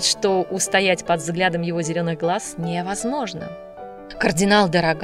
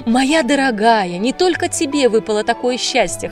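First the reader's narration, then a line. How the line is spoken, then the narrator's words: Loud laughter. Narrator (Russian): хохотала Полина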